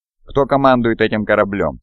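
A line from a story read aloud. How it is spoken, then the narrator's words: Plain. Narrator (Russian): спросил я Телемахона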